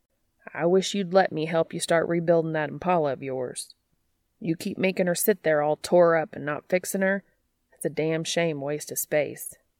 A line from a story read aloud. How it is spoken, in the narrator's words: Bobby remarks gruffly